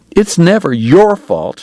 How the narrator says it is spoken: she sobbed

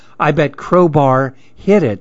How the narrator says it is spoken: said

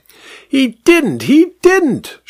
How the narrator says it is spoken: shrieked the vicar

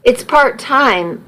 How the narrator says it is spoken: muttered, not even knowing why

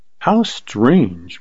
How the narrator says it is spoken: murmured Carly

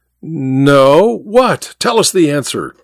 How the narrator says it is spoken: said someone with a laugh

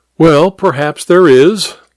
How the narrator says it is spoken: Hare laughed amiably

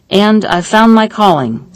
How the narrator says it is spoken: said Steinitz

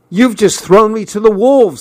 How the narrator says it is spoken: I shouted

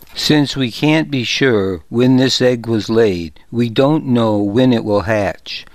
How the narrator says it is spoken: I said

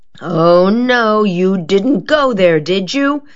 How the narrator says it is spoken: she groaned

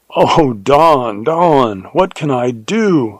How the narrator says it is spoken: I cried in horror

